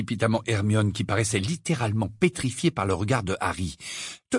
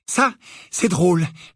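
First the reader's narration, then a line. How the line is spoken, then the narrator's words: Trembling interruption. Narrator (French): l'interrompit Harry d'une voix tremblante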